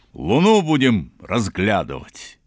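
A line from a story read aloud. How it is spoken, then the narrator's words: Loud laughter. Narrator (Russian): захохотал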